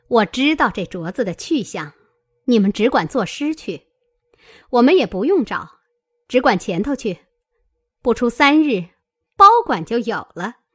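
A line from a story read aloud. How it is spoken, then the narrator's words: Laughing. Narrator (Chinese): 凤姐儿笑道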